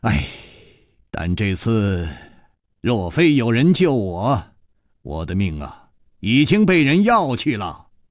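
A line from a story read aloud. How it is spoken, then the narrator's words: Smiling sigh. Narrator (Chinese): 楚留香虽然在微笑，还是忍不住叹了一口气说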